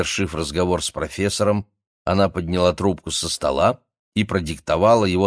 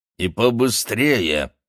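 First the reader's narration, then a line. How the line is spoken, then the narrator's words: Growled. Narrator (Russian): прорычала она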